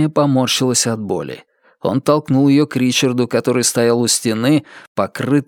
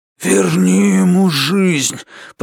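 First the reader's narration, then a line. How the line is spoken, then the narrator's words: Hoarse rasp. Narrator (Russian): прохрипел он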